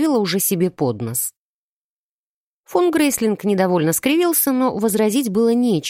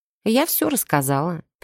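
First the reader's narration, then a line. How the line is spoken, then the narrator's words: Calm confession. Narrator (Russian): призналась ему спокойно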